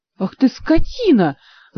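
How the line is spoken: Furious howl. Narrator (Russian): взвыла Ольга, в один миг лишившись всяческого сострадания к этой профессиональной жертве

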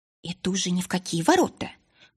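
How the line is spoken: Indignant hiss, herbalist. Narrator (Russian): прошипела возмущенная действиями подруги травница

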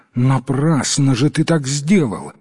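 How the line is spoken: Exclaiming. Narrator (Russian): воскликнула жена

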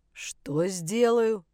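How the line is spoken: Deep-voiced woman. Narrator (Russian): пробасила женщина

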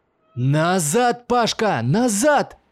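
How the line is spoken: Frantic scream. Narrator (Russian): Истошно закричал Макс

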